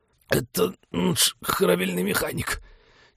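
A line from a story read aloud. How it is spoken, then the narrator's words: Hoarse, suppressing a cough. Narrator (Russian): Немногим отчетливее прохрипел Вениамин, багровее от отчаянных усилий сдержать кашель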